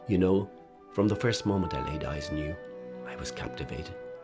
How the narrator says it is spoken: he whispered

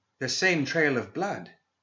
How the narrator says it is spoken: exclaimed Chen

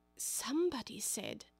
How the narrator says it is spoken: Alice whispered

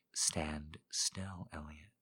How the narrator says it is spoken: she whispered

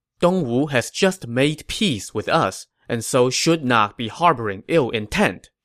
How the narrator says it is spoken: Zhuge Liang said

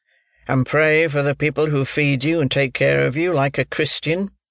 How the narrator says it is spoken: said another gentleman in a gruff voice

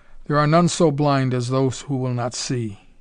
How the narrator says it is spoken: he murmured

